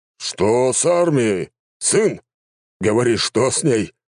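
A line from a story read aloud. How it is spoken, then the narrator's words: Emperor's growl. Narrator (Russian): рыкнул император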